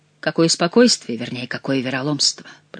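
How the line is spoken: Whisper. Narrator (Russian): прошептал граф

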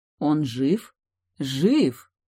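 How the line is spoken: Snort. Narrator (Russian): Миг хмыкнул

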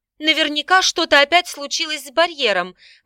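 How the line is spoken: Excited girl's exclamation. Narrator (Russian): воскликнула одна из особо впечатлительных девушек

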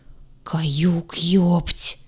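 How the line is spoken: Terrified strained voice. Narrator (Russian): Исполненным неподдельного ужаса голосом выдавил Двар

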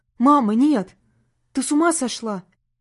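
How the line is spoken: Frightened shout. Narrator (Russian): Испуганно закричал парень на мать

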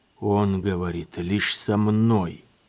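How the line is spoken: Young man grating through teeth. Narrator (Russian): проскрипел сквозь зубы юноша

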